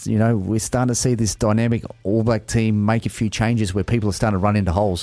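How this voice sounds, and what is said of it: Australian accent. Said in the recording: “the Aussie accent.”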